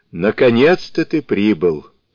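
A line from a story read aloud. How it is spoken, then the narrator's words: Laughing. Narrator (Russian): рассмеявшись, молвил златоглавый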